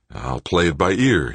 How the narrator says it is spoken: said aloud, and began to laugh wildly

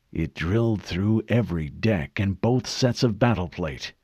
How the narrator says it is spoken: Captain Keyes murmured

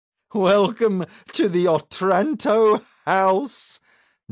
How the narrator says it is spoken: Nicodemus said with a dark laugh

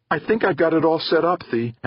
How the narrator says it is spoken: Angela said happily

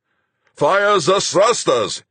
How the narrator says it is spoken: he roared

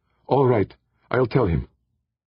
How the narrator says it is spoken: Defia said tightly

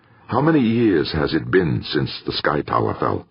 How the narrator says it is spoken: Nobuhiko asked

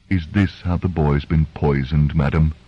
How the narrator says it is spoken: he asked softly

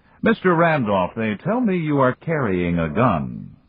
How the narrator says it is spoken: Moloch said, his voice as bright as his smile

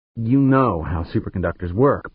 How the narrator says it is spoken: Pancho said grimly

